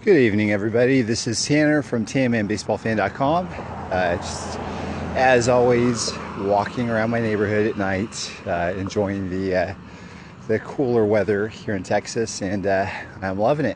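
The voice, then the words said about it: Slightly out of breath. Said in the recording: “Probably going to sound a little bit more out of breath tonight.”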